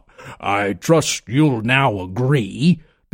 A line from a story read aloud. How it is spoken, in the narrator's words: began Monix with a heavy laugh that shook the tree